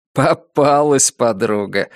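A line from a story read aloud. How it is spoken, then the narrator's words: Said, then laughed. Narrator (Russian): сказал он и рассмеялся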